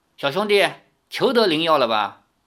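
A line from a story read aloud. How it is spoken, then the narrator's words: Cold. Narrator (Chinese): 苗人头领冷冷地看着他说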